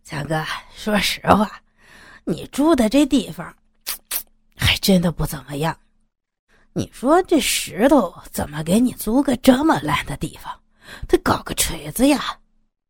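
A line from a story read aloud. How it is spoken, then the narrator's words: Laughing. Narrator (Chinese): 小赖皮笑着说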